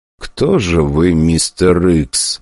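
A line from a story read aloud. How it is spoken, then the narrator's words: Muttering. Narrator (Russian): бормотал Гагарин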